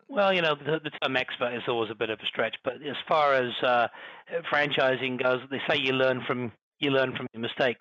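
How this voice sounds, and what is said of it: British accent. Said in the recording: “Oh, I love the accent. Oh, the British accent. It's so beautiful. ... the Queen's English.”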